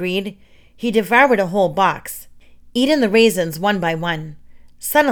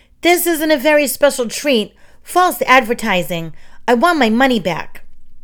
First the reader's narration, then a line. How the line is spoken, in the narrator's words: shouted